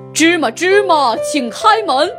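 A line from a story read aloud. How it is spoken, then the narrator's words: Loud shout. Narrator (Chinese): 他大声喊道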